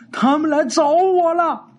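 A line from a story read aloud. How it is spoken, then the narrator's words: Shouting. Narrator (Chinese): 喊完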